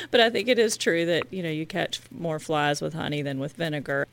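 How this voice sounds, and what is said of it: American Southern accent. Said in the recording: “I'm from the South, you might have noticed from my accent”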